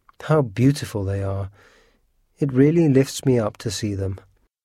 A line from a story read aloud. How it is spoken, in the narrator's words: sighed